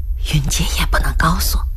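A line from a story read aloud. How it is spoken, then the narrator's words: Lowered voice. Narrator (Chinese): 兰香压低了声音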